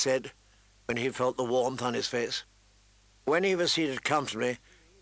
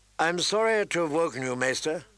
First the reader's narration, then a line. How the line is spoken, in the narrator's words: Jon Snow said